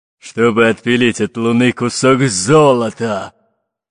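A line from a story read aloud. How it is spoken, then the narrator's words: Growled. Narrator (Russian): прорычал Буль-Буль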